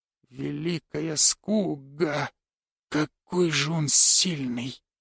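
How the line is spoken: Whisper. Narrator (Russian): прошептал Раннагар

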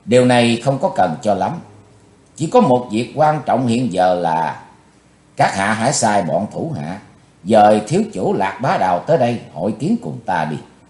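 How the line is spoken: Cold voice. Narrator (Vietnamese): Chí Tôn giọng lạnh lùng

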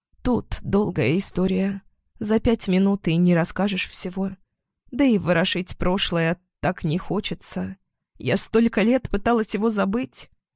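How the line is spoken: Quiet, tearful. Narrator (Russian): Она утерла рукой текущие слезы и тихо сказала

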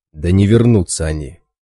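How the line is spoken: Heated snap. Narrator (Russian): запальчиво огрызнулся Раз

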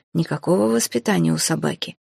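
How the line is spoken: Quiet disapproving old grumble. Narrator (Russian): тихо проворчал советник, осуждающе качая седой головой

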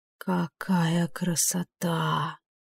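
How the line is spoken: Whisper. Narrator (Russian): прошептала Лериния

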